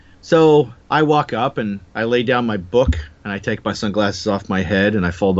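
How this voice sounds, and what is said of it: Usual voice. Nothing is said of it.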